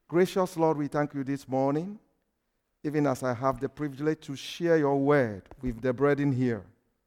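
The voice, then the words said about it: Speaks with an accent. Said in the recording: “my accent will not be a problem”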